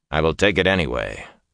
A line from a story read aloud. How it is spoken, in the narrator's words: Lan said firmly